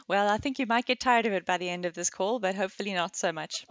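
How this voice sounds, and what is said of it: South African accent, slightly British-mixed. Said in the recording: “hear your accent... a really cool accent... just sounds really cool... I was born and raised in South Africa... moved to the UK... the beginning of the muddling of my accent”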